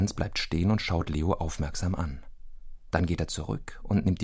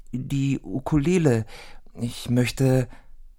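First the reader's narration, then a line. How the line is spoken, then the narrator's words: Stammering. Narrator (German): stammelt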